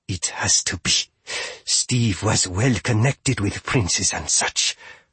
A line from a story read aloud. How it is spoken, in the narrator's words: When she could manage, she said through gritted teeth